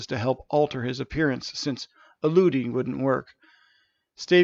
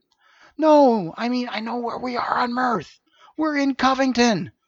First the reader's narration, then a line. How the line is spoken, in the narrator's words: Janice excitedly exclaimed